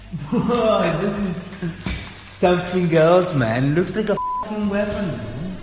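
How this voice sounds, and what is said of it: Spanish-accented English. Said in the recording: “the other voice with a Spanish accent is the pilot's”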